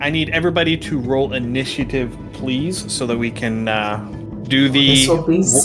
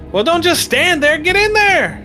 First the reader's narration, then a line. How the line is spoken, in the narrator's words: she yells